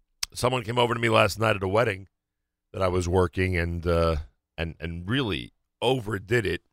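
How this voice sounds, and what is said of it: Strained voice, losing his voice. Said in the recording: “I'm losing my voice this morning, literally. ... I am having trouble talking this morning.”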